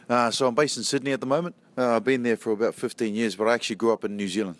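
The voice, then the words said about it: New Zealand-Australian accent. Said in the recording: “hopefully everyone understands my accent... The accent, beautiful. It's what we call ear candy. It just sounds wonderful on the radio... So more Kiwi than Aussie”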